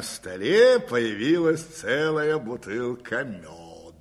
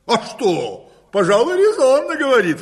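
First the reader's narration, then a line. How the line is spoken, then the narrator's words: Cheerful exclamation. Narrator (Russian): воскликнул хозяин, весело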